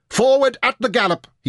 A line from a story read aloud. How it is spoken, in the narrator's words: he shouted